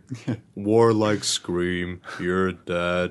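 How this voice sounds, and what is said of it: Slow voice imitating game alien. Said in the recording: “Elcor ... Really, really slow. ... That's quite good. That's quite a good impression.”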